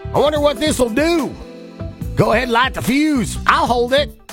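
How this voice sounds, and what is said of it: Put-on Southern American accent. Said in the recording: “I don't know why it was in a southern accent.”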